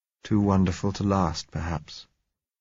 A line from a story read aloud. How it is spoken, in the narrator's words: he said softly